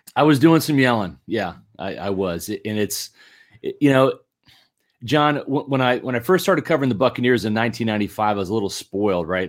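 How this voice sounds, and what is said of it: Slightly hoarse voice. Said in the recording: “If you heard my my voice, I'm a little hoarse ... Were you yelling a little bit?”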